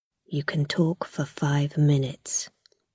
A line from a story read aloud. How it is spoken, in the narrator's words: the guard said quietly